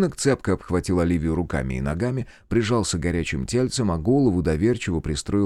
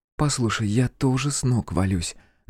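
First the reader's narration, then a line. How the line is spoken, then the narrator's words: Pleading whisper. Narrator (Russian): наконец взмолилась Оливия шепотом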